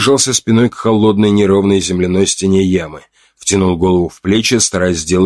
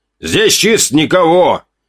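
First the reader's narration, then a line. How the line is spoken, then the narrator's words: Slightly irritated shout. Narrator (Russian): крикнул слегка раздраженным голосом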